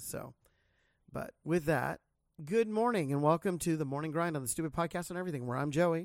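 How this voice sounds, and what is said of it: Sick voice, needs throat clearing. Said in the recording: “I have to clear my throat quite a bit. This thing just refuses to shake on me ... give my voice a rest”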